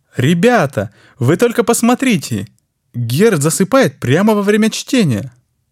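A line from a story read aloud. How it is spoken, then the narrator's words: Exclaiming. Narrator (Russian): Воскликнул сидящий рядом Франц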